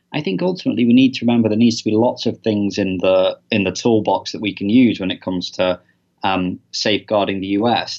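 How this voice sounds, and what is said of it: British accent. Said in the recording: “as you probably can tell by his accent, he spent some time in the UK, in London”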